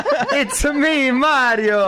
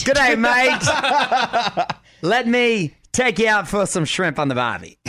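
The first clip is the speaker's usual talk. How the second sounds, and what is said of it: Put-on Australian accent. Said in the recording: “Australian”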